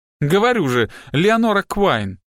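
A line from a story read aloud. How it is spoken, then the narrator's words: Exclaiming. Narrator (Russian): воскликнула Пиппа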